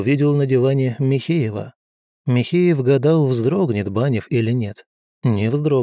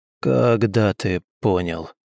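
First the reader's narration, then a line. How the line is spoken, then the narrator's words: Muffled question. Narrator (Russian): глухо спросил Банев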